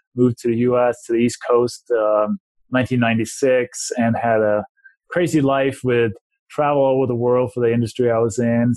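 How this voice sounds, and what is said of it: Danish accent. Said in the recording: “if people may be able to hear from my accent or my name, I didn't grow up in this country ... I was born and raised in Denmark”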